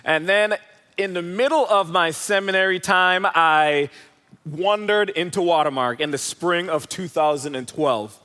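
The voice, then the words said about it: Jamaican accent. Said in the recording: “I'm originally from Jamaica, if you're wondering where the accent is from.”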